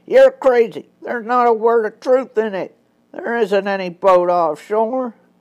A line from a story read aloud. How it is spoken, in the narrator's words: The king of the smugglers, who had been silent for several minutes now, cried out